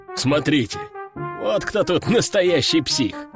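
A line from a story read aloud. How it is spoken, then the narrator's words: Middle-aged man chuckling. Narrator (Russian): хохотнул мужичок лет 40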